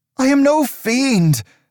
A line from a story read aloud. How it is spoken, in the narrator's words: Aldous cried